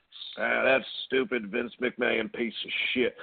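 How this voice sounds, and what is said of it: Impression of wrestler Ole Anderson. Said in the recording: “my Ole impression”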